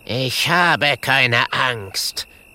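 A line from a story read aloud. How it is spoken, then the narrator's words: Cutting reply. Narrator (German): erwidert Clemencia mit schneidender Stimme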